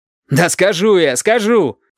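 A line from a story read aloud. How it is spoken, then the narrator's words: Shouted. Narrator (Russian): крикнул Валентин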